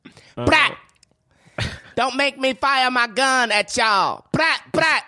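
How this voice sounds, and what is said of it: Loud Madea-like impression, sounds like Katt Williams. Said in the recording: “I'm saying it like kind of like a Madea accent. ... You sound like Cat Williams. ... you're so loud”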